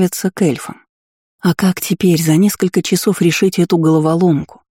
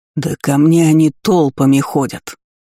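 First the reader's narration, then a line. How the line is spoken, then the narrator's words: Furious bark. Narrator (Russian): рявкнул взбешенный король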